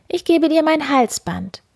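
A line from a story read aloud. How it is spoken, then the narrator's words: Miller's daughter calling out. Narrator (German): rief die Müllers Tochter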